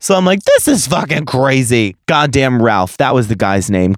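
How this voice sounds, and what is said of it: Usual voice. Nothing is said of it.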